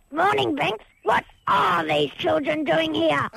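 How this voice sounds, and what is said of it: Low old man character voice. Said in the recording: “my voice isn't low enough ... old man voice”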